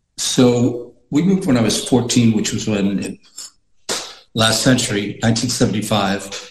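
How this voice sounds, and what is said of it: American accent. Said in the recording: “I sort of developed what you would call a Yank accent.”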